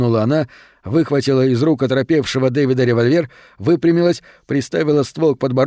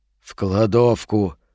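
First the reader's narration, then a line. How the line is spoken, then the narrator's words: Strained, forced out. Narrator (Russian): выдавил тот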